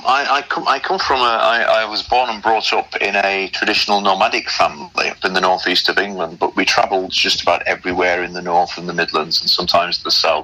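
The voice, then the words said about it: General northern English accent. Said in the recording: “generic northern man ... you might hear people say, well, are you from Derbyshire? Are you from Yorkshire? Are you from Lancashire? Are you from the northeast? ... a generic northern voice”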